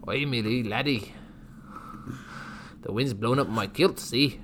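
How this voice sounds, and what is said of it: Poor attempt at Scottish accent. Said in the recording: “Do my best Scottish. No, I can only sound Irish... I can't do Scottish... can't do a Scottish accent.”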